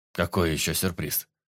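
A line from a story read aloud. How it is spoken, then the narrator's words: Muttering. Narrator (Russian): Пробормотал Сарафанов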